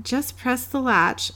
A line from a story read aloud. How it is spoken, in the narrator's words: called out the great grandmother